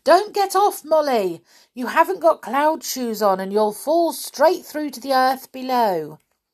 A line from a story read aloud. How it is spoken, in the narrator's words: Binky shouted to her